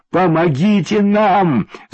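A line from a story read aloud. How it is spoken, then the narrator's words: Crying, shouting. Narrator (Russian): закричала плачущая Ксюша машинисту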